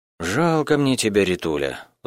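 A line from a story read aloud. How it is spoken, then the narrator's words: Sighing. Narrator (Russian): вздохнул Малеев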